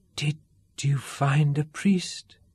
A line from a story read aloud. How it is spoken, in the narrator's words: she whispered